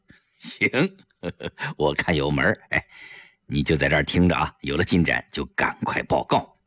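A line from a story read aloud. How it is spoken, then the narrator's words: Quiet laughing. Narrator (Chinese): 程寒三小声笑着对胡威说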